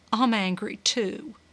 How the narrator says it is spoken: she said quietly

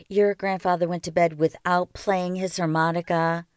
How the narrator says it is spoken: she asked

